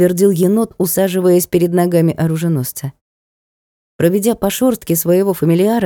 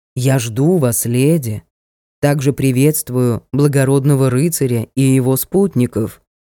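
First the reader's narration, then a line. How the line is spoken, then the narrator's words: Sepulchral announcement from above. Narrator (Russian): за могильным голосом возвестили сверху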